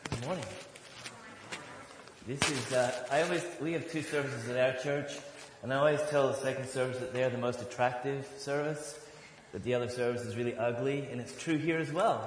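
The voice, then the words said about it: Northern Irish accent, some Australian influence. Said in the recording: “you're going to notice that I have an accent as well. It's definitely not as cool as Sarah's. ... I grew up in Northern Ireland. I was born in Northern Ireland, just outside of a city called Belfast ... I moved when I was 12 years old to Australia”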